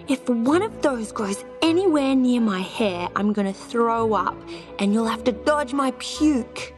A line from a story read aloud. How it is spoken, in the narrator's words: Mercedes yelled